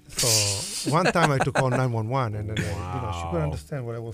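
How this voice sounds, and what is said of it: Strong Italian accent. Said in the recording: “every strong accent is good ... This is my accent ... my accent is, I can't lose it anymore. ... I can speak very Sicilian too, dialect.”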